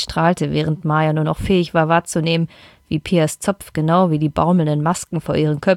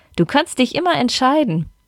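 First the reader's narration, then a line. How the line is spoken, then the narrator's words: Laughing burst. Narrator (German): lachte Pia auf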